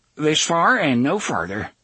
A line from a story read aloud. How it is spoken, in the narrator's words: Maud told them flatly